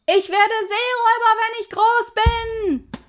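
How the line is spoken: Called. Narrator (German): rief Pippi

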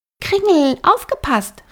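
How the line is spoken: Calling out. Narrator (German): rief Flora

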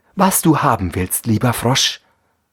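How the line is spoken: Plain. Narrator (German): sagte sie

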